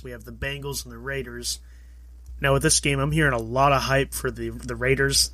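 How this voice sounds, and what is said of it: Slightly off, sick-sounding voice. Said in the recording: “my voice is a little off. I'm still getting over that thing that everyone's getting over”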